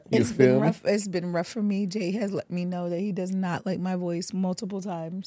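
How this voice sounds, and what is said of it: Unusually deep, masculine-sounding voice. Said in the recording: “I sound like a man coming in”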